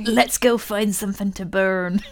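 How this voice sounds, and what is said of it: Put-on West Country accent. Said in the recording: “That sounds like you're doing a West Country accent ... They are like pirates.”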